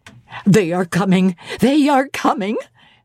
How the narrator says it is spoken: cried Hannah

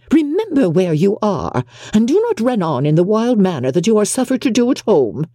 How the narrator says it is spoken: cried her mother

